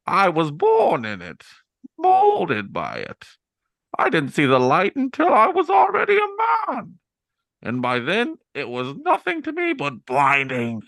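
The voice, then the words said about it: Imitates the Bane character voice. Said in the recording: “his Bane impersonation”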